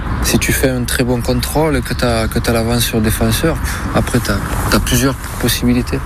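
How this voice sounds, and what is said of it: Southern French accent, quiet voice. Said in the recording (French): “l'accent ... Du sud, ouais. ... Un peu, oui, puis toujours un petit peu, voilà, il parle pas bien fort”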